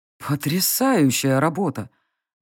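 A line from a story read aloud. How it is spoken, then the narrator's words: Sudden amazed exhale. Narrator (Russian): неожиданно выдохнул усач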